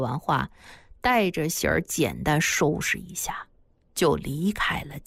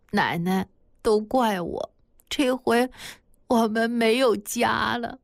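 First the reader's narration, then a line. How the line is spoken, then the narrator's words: Crying. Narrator (Chinese): 喜儿哭着对马奶奶说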